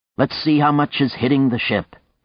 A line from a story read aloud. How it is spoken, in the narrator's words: he said brightly